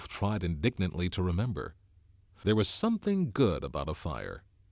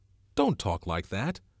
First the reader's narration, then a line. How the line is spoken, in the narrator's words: cried Ralph in a shocked voice